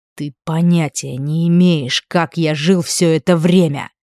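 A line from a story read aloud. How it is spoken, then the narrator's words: Hissed. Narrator (Russian): прошипел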